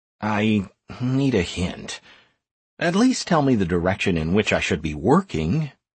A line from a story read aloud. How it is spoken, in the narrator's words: I mumbled sheepishly